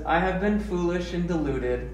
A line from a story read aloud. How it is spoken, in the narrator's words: said